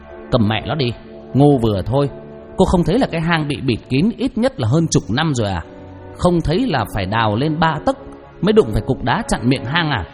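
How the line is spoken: Harsh, clipped voice. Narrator (Vietnamese): Tư Huyền gằn giọng

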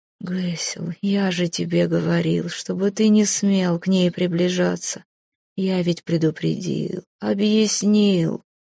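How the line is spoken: Muffled groan, king. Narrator (Russian): глухо простонал король

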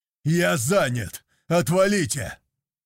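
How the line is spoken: Barked shout. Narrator (Russian): гаркнул я

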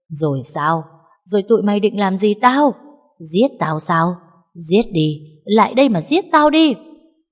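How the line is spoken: Maniacal loud laughter. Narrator (Vietnamese): Bà ta cười lớn lên như một người điên

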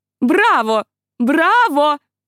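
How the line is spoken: Enthusiastic shouting. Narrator (Russian): кричала она, и от ее энтузиазма

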